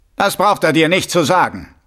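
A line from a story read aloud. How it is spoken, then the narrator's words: Sharp soldier's reply. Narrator (German): erwiderte der erste Soldat scharf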